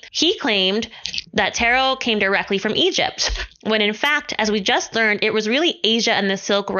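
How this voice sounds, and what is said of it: Usual voice. Nothing is said of it.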